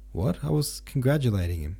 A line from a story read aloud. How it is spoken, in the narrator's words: said Zirkov